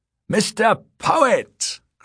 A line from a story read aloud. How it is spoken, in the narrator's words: cried Z